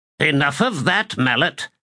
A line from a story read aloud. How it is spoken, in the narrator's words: snapped another horseman, hunched with age